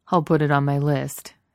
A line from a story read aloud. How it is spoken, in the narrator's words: Steve replied dryly